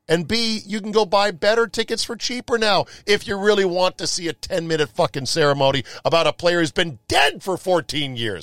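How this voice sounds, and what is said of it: Yelling, loud agitated rant. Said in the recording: “Am I yelling? I'm yelling now, aren't I?”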